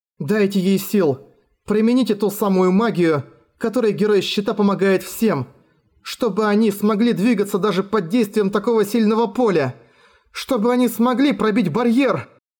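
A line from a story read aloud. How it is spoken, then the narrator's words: Very hoarse voice. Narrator (Russian): Её голос показался мне очень хриплым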